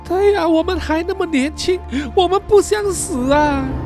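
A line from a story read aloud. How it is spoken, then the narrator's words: Crying. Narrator (Chinese): 阿友和诺鲁也是哭着说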